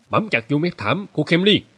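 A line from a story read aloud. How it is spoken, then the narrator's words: Sudden shout. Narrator (Vietnamese): Mustafa đột ngột hét lên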